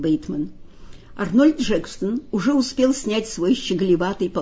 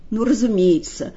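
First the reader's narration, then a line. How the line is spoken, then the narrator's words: Gloomy reply. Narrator (Russian): мрачно отозвался Бейтман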